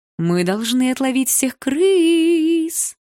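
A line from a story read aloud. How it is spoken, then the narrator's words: Singsong. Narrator (Russian): нараспев сказала Малиновская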